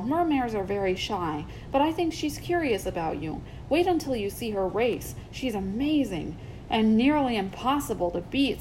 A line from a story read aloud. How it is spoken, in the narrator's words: said Arrow with a sigh